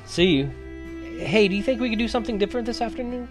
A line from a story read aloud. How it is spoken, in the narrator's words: said happily